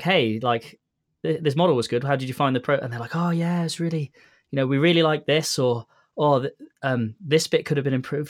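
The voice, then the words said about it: British accent. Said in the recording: “your accent is like perfect for Audible ... You got your Audible accent ... I must sound like a proper Briton”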